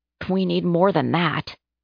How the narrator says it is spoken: muttered

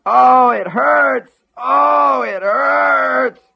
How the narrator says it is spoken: Buster screamed

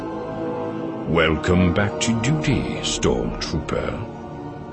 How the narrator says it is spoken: he said gravely

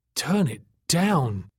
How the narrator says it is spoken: Tack croaked weakly

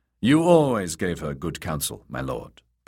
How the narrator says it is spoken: Peter said

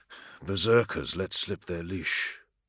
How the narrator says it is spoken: he muttered

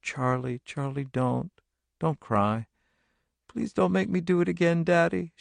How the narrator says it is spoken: he murmured

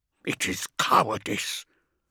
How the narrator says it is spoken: Beaumont hissed through his teeth

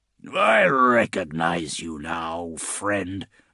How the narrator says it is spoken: Bubonicus hissed

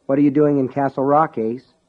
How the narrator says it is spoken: Alan asked evenly

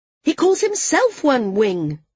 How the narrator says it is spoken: Maris said, her voice rising once more

